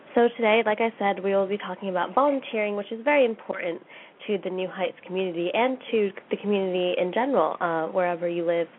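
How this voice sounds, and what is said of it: Voice sounds sick. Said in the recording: “excuse my voice just a little bit, I've been sick these past couple of days”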